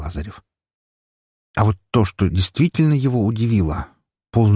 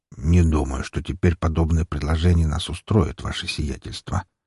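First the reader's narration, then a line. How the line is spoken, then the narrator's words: Mutter. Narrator (Russian): пробормотал Шугарин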